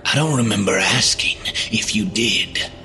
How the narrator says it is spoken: Mikey rasped

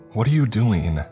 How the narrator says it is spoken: Margaret shouted at me

